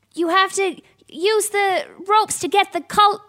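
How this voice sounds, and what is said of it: Put-on American accent. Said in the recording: “Why am I using American accent?”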